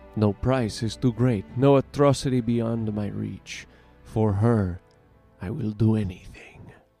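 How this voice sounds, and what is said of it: Imitates a game character's voice. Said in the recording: “my terrible impression”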